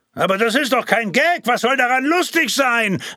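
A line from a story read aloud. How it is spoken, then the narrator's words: Questioner calling back. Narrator (German): rief der erste Fragesteller zurück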